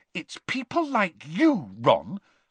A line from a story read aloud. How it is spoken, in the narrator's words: Hermione began hotly